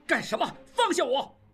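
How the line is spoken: Furious shouting. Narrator (Chinese): 应季怒不可遏，大喊大叫

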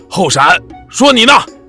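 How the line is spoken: Sharp shout. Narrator (Chinese): 门可栓厉声叫道

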